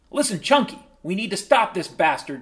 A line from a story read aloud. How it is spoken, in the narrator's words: cried Tommy